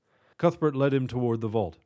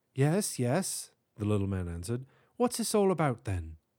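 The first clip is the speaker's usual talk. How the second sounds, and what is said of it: Character voice with British accent. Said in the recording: “speaking with a distinct British accent.”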